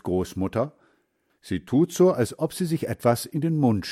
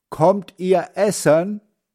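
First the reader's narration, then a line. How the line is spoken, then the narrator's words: Calling out. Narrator (German): Sie ruft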